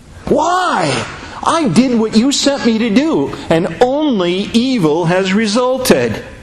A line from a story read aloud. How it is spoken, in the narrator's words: Moses screamed at God